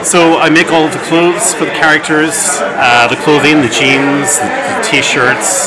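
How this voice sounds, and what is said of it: Irish accent. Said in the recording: “the ... with the Irish accent is the surfacer for clothing”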